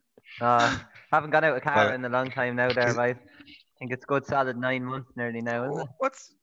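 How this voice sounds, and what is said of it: Strong rural farmer-like accent. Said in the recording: “You sound even more like a farmer since you've last been on. ... Where's this accent coming from?”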